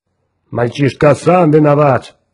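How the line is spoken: Booming voice. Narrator (Russian): прогудел Грег

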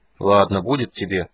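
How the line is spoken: Upset grumbling. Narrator (Russian): огорченно пробурчал Карамон

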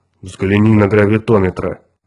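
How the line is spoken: Anxious low drone. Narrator (Russian): тревожно прогудел Грег

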